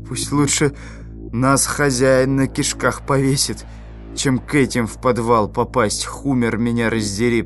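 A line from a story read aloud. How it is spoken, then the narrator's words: Mutter. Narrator (Russian): пробормотал тот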